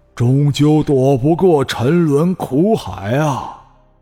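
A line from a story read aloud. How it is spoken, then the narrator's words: Sighing. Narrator (Chinese): 地藏王菩萨已开始摇头叹息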